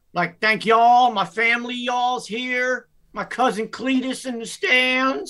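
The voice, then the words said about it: Put-on Southern accent imitating Brian Kelly. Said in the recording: “the old white guy all of a sudden has a Southern accent ... he just turned into a Southern speaking guy”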